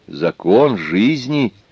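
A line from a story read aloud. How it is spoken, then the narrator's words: Trying to sound gentle. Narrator (Russian): ответил Шестипалый, стараясь говорить мягко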